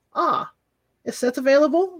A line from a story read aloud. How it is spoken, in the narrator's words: Reba asked